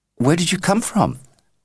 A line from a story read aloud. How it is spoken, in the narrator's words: pleaded Ben